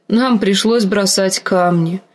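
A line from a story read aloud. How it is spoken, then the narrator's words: Unhappy voice. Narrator (Russian): сказала Ария несчастным голосом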